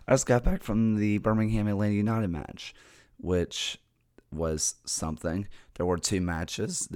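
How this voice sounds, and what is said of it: Strained, worn-out voice. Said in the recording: “no voice ... My voice is killing me ... I'm sorry about the voice”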